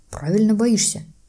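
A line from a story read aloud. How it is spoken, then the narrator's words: Grumble. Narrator (Russian): буркнул Дадли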